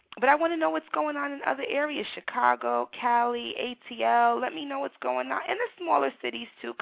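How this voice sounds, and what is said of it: New York City accent. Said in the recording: “I'm a New York City girl. Some of my listeners from across the country, they're like, girl, I hear that accent. I'm a New Yorker, raised in the city. Just a typical New York City gal.”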